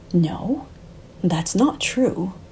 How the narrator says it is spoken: interjected Alberto softly, ice dripping from his every word

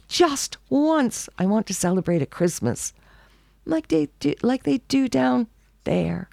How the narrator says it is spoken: he wailed

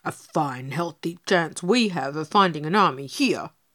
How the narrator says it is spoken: snorted Pegasus as the afternoon drew to a hot, weary close

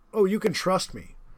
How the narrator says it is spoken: said the Cossack

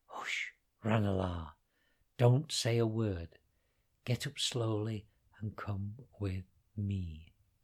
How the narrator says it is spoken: The dragon whispered in his ear

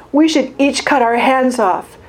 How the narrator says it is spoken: wailed Snow

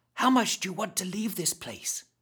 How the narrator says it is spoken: whispered, fearful that the animated mob of crazies might overhear

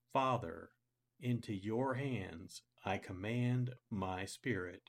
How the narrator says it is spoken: Jesus cried out in a loud voice

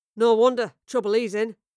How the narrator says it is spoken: a third spat

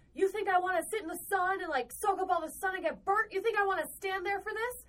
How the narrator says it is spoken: Yelling

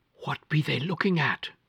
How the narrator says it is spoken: I whispered to Uncle Job

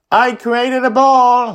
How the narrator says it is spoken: he shouts back

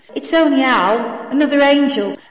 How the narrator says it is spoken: Angela replied

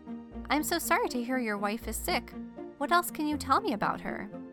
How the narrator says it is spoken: John Joseph smiled kindly and said

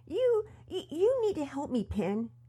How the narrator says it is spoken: Pearson exclaimed, his voice trembling with frustration

